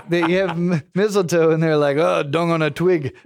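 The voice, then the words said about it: Poor put-on German accent. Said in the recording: “that wasn't a good German accent.”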